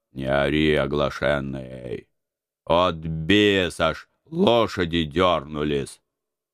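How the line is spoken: Gruff mutter. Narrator (Russian): буркнул мой дядя

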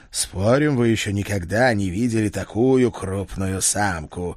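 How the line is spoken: Snorting in reply. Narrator (Russian): ответно хмыкнул Седрик

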